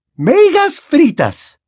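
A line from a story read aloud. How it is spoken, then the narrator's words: Teacher exclaiming. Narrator (Spanish): exclamó la profesora McGonagall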